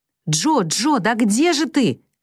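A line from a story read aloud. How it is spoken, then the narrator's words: Shouting. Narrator (Russian): кричала Мэг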